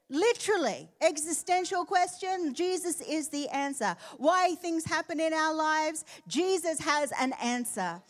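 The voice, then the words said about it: Natural Australian accent. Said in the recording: “The accent is Australian. It's not put on.”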